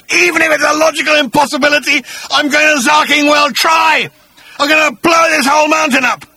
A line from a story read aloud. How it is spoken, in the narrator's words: he screamed